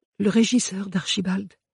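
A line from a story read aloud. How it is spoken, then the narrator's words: Hoarse reply. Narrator (French): répondit-elle d'une voix éraillée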